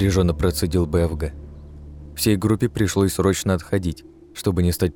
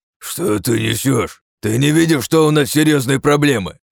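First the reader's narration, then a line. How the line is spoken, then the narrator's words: Snapped back. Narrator (Russian): огрызнулся БФГ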